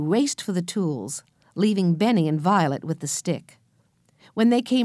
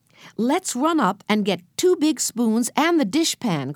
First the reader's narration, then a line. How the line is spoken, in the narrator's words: cried Jesse